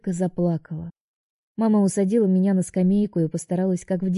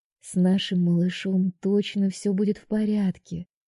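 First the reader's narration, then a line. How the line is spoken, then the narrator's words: Mother whispering. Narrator (Russian): шептала мне мама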